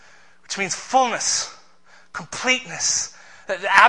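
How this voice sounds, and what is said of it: Usual voice. Nothing is said of it.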